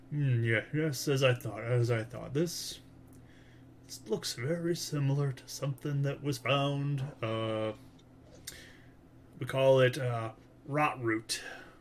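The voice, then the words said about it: Thick put-on character accent. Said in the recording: “is my accent a little thick? ... No, it's perfect.”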